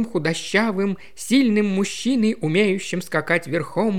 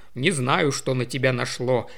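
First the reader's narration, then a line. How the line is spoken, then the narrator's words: Grumble. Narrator (Russian): проворчал Томми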